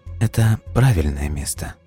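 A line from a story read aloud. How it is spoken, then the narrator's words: Sudden quiet. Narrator (Russian): вдруг тихо проговорила доктор Краун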